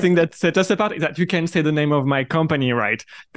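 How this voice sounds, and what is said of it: French accent. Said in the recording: “Sorry for the accent. I'm French”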